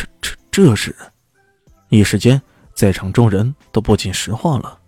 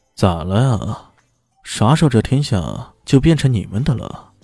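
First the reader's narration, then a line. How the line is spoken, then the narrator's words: Leisurely, distant voice. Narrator (Chinese): 一个声音悠悠的传来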